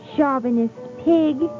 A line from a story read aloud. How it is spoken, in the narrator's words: she cried